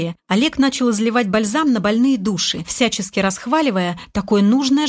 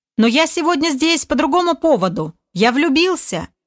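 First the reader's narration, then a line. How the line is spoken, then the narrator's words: Yelled at full strength. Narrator (Russian): Что есть мочи, заорал Олег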